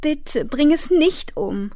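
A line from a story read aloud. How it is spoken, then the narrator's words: Sobbing. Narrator (German): schluchzte sie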